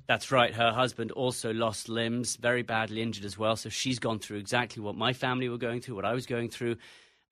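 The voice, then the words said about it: English accent. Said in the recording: “the English accent, I'm an American”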